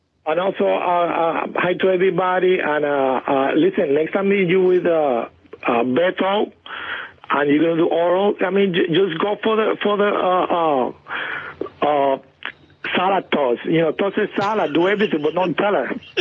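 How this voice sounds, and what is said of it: Accent, words run together. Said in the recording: “I love the way he talks. ... That accent ... everything is one word almost ... There's no beginning and ending.”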